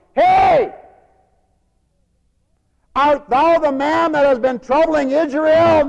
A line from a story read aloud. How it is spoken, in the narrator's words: yelling